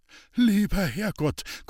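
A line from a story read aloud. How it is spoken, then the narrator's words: Panting with strain. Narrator (German): keuchte Hans-Peter und versuchte mit aller Kraft, den Schlitten beiseite zu drücken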